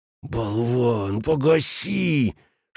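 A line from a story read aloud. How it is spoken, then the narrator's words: Furious hiss. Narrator (Russian): шипел яростный Шмидт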